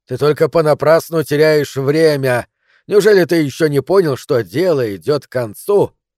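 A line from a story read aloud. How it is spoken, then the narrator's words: Yelling. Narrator (Russian): Я заорал на них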